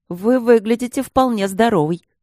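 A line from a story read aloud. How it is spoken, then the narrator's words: Sharp. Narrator (Russian): резко произнес лорд Трот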